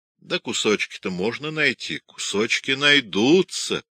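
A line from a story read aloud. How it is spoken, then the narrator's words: Plain. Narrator (Russian): сказал Петрович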